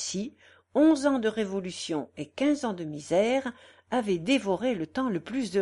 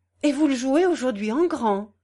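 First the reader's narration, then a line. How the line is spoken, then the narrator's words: Quick eager question. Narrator (French): demanda vivement Godefroy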